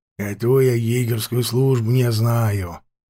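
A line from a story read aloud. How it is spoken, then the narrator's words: Grumbling old man. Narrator (Russian): проворчал дядька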